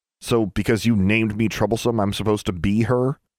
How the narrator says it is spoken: Alexandra said

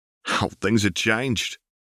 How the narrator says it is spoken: Tiberius snorted

